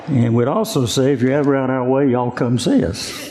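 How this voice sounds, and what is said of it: Southern US accent. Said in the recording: “I'm a South Carolinian ... you can tell by the accent that I'm not from Colorado”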